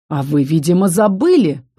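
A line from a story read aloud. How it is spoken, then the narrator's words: Dragon's hiss. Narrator (Russian): прошипел дракон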